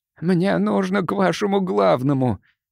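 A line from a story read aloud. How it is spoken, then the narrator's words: Strained, forced out. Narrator (Russian): выдавил Карбоне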